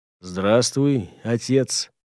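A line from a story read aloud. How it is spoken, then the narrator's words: Calm, friendly, changed voice. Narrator (Russian): Спокойно и дружелюбно поздоровался с ним Гортер, впервые за сегодняшний день поменявшись в лице и в голосе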